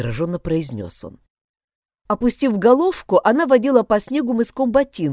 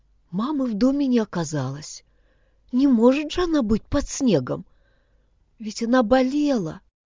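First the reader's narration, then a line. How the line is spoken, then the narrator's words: Child's whisper, holding back sobs. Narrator (Russian): Едва сдерживая рыдание, девочка прошептала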